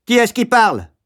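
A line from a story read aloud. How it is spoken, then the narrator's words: Supervisor's sudden shout. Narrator (French): cria la surveillante en faisant irruption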